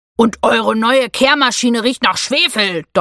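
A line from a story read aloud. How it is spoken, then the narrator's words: Thundering interruption. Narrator (German): donnerte Theo dazwischen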